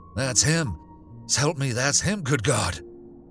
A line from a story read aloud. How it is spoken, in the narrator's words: came from Hank in a whispering cry, half choked